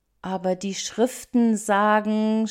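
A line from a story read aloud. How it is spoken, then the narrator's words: Stammering. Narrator (German): stammelte er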